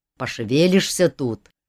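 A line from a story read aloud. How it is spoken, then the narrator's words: Grumbled. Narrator (Russian): проворчал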